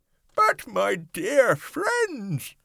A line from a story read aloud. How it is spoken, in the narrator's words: cried the old green grasshopper, trying to be cheerful